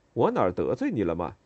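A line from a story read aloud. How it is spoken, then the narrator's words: Asking with a wry smile. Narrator (Chinese): 哥哥面带苦笑问道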